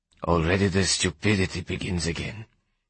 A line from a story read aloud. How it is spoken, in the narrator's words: he said softly